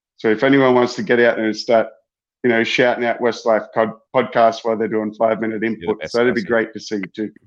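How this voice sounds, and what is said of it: Hybrid accent with slight Kiwi hint. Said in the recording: “a bit of a hint of a Kiwi accent ... I've got a bit of a hybrid accent”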